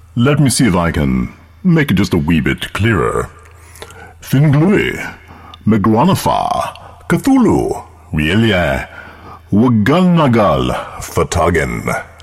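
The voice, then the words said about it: Genteel British accent. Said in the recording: “at least I have a very, very genteel British accent”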